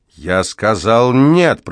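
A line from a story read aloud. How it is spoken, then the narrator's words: Growl. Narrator (Russian): прорычал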